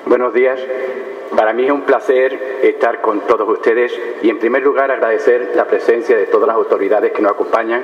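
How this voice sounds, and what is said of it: Spanish accent from Spain. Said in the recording (Spanish): “por mi acento distinguiréis fácilmente que soy del otro lado del Atlántico, de España”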